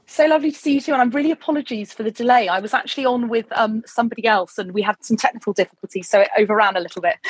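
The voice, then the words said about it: Lovely accent and voice. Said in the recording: “your accent, your voice”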